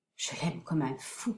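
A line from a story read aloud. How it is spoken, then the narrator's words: Murmured. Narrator (French): murmura-t-il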